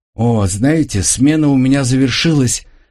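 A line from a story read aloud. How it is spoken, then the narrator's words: Joyful young woman. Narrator (Russian): радостно проговорила девушка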